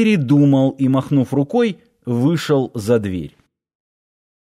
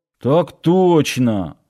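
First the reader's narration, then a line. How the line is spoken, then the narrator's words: Displeased grumble. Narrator (Russian): недовольно пробурчал Нанос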